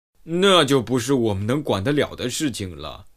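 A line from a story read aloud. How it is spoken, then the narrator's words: Sighing upward. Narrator (Chinese): 科顿仰面向上，叹息道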